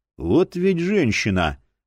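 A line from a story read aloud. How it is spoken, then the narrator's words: Inward grumbling. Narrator (Russian): мысленно проворчал Боул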